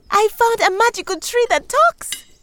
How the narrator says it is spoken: announced happily

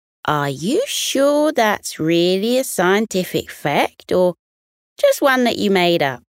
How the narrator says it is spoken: Didge the dingo chuckled at Sid's bold statement and asked

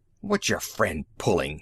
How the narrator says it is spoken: he rasped

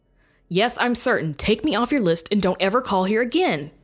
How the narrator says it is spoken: practically shouted into the phone

